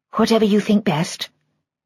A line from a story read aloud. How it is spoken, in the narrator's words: she said quietly